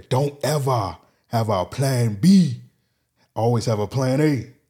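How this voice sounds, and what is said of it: Poor imitation of an Austrian-accented voice. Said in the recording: “terrible Arnold Schwarzenegger impression”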